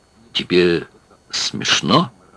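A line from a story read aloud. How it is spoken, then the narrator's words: Stuttering. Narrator (Russian): заикаясь, сказал он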